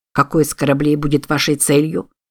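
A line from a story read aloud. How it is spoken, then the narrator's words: Plain. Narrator (Russian): спросил Купер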